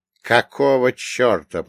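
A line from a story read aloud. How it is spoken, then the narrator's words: Growled. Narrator (Russian): прорычал я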